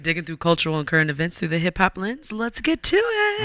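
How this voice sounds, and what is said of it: Hoarse, deepened, nearly lost voice. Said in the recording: “my voice is not here ... You are a fucking man ... I'm such a man right now”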